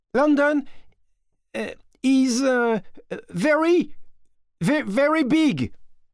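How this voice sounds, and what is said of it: English with a poor French accent. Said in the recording (French): “Faudra améliorer ton accent, si tu veux que les Anglais te comprennent.”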